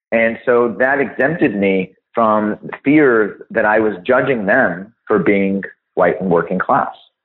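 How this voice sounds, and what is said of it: American accent. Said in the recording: “I have an American accent. It's pretty obvious.”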